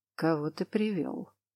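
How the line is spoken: Creaky male voice asking. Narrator (Russian): Скрипящим голосом поинтересовался мужчина

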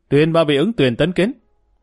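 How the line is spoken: Loud announcement. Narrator (Vietnamese): Mã Vinh Thành lớn tiếng nói

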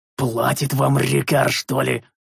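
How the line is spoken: Growl. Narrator (Russian): прорычал я

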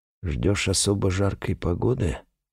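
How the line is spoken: Muttered. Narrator (Russian): пробормотал он

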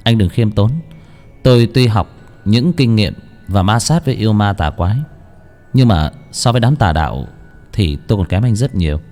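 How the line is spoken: Smiling. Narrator (Vietnamese): Bách Việt cũng mỉm cười

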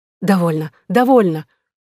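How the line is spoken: Exclaiming. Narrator (Russian): воскликнула Екатерина

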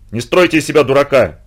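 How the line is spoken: Shouting. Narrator (Russian): закричал Маннергейм

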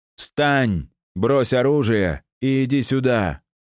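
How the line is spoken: Booming amplified voice. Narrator (Russian): Внезапно прогремел голос, будто усиленный громкоговорителем

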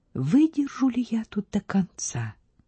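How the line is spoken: Whisper. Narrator (Russian): шепнула

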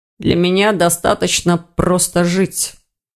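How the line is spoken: Hollow, muffled reply. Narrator (Russian): глухо отозвался Ирс

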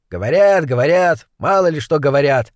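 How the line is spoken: Grumbling woman. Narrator (Russian): пробурчала другая

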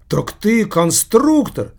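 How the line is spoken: Mocking laughter. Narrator (Russian): спросил с издевательским хохотом Машка

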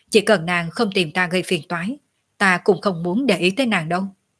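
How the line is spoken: Cold, pouting. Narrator (Vietnamese): Tiểu Lôi biểu môi, chỉ lạnh lùng nói

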